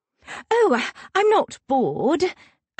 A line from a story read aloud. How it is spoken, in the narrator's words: I exclaim, putting on my simpering noblewoman act